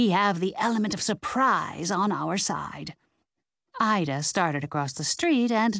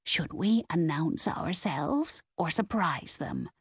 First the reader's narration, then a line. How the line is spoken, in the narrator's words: Ida whispered